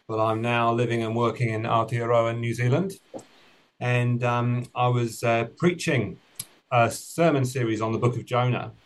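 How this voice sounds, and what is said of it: British English accent. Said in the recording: “you might have picked up from the accent that I'm originally from the United Kingdom”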